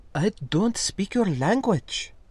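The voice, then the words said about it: Soft, refined accented female voice. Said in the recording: “in a soft, really delightful noble space accent”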